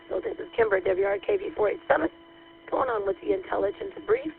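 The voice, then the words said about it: Voice not quite normal, impaired. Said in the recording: “Sorry about my voice. ... I'm still getting it back, almost back to normal”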